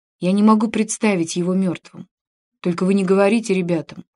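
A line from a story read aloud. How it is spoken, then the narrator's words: Heavy sigh. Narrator (Russian): тяжело вздохнув, добавил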